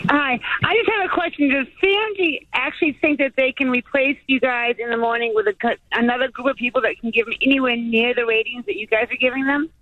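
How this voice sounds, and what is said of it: Boston New England accent. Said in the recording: “What's your accent there? ... Massachusetts ... I'm from New England ... you can hear it ... just outside of Boston”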